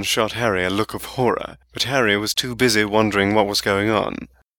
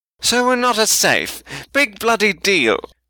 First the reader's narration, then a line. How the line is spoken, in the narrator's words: Malfoy snapped